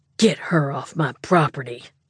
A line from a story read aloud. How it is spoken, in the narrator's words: he growled